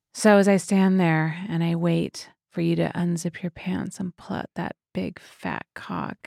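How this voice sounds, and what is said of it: Seductive sexy voice. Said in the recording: “sexy voice notes ... what's your sexy voice sound like? ... Give us a sexy voice note.”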